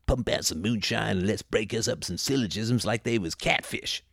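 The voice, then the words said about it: Exaggerated rural Tennessee accent. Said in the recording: “I have no idea what accent that was, by the way, and nobody will ever be able to tell. Just channeling space aliens from the planet Tennessee.”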